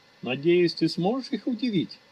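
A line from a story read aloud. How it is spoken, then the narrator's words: Cheerful laughing. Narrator (Russian): весело рассмеялся Кадраж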